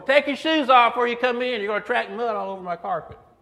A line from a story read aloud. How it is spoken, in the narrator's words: Mom yelling at us through the back door